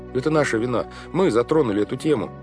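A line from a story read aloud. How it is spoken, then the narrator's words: Hurried speech. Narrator (Russian): торопливо сказал Клаус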